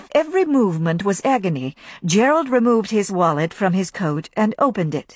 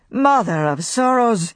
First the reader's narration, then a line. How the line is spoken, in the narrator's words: moaned Gerald